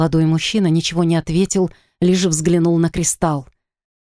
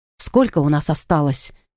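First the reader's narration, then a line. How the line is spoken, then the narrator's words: Quiet question. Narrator (Russian): тихо спросила у мужчины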